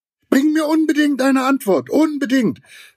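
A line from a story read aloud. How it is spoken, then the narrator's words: Calling after someone. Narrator (German): rief Giraffe ihm noch nach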